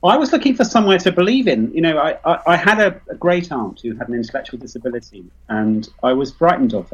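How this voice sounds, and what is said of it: British accent. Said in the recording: “you have a British accent ... I was born near London, so I'm extremely British”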